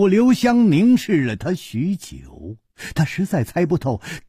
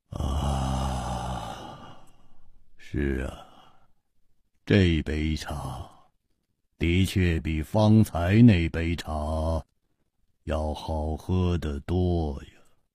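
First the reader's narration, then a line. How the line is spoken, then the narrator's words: Murmured. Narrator (Chinese): 喃喃地说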